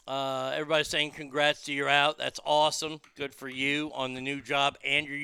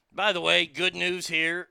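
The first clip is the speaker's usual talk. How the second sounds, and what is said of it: Sarcastic delivery. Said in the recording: “I'm being sarcastic.”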